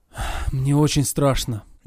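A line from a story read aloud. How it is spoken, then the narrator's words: Deep sigh, confession. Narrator (Russian): Я глубоко вздохнул и признался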